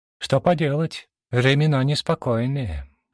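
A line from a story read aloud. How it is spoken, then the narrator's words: Craftswoman's heavy sigh. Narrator (Russian): тяжело вздохнула мастерица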